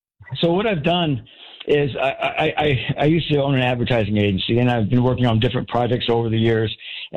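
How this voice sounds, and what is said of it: Out of breath, breathy speech. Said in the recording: “I'm a little bit out of breath.”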